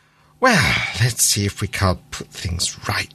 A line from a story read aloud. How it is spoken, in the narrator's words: he muttered to himself